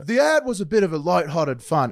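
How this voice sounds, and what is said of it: Attempted English accent. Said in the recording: “How do you do an English accent? Like a cool English accent. ... English accent? Like David Beckham? ... I can't do it.”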